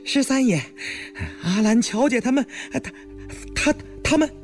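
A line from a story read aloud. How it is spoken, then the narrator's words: Breathless stammering. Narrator (Chinese): 气喘吁吁的赶来，结结巴巴的说道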